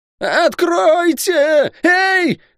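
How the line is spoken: Yelling louder than before. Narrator (Russian): пуще прежнего заорал Лук

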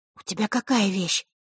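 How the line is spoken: Whispered. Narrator (Russian): шепнула Василиса Захарре

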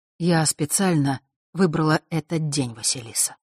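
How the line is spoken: Soft. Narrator (Russian): мягко продолжила она

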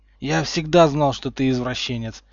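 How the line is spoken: Breathless wheeze. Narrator (Russian): просипел кое-как отдышавшись

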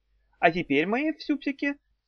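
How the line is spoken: Sweet angelic voice. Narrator (Russian): сладким ангельским голоском продолжала Эльза Киркентида Флора Цахис

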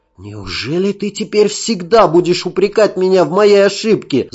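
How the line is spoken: Pained exclamation. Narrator (Russian): с болью воскликнул он

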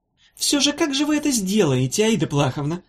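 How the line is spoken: Small yielding voice. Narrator (Russian): спросил он капитулирующим голоском

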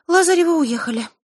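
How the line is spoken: Sigh. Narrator (Russian): вздохнула Диана

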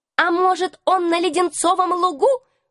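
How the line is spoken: Mocking squeak, young rat. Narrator (Russian): с издевкой в голосе пропищал какой-то крысеныш

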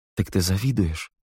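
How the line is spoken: Plain. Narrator (Russian): сказал Нил

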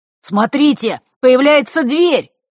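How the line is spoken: Excited shout. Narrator (Russian): возбужденно выкрикнул Мар

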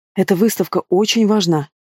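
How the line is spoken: Hurried undertone. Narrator (Russian): торопливо говорю я вполголоса

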